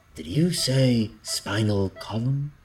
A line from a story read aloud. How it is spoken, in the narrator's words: Alvarez said, his voice admirably calm